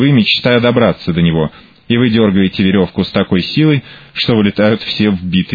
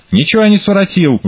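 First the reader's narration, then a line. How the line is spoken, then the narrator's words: Wailing yell. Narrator (Russian): вопит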